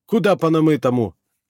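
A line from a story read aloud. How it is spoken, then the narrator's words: Snapping creature. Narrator (Russian): огрызнулось существо с телом, переходящим в змеевидный хвост, как у Наги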